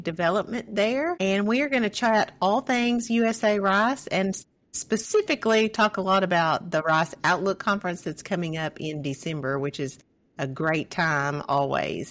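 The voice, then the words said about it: Arkansas accent. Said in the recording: “my Arkansas accent has a really hard time saying, The Rice Stuff”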